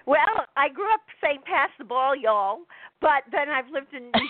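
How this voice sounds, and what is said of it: New Jersey accent. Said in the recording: “how do you end up sounding like a New Jersey person ... I picked up ah. the accent”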